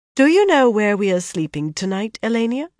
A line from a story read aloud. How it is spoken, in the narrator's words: she said coolly